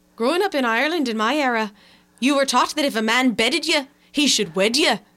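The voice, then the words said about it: Put-on Irish accent. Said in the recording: “I was hoping you would do the accent.”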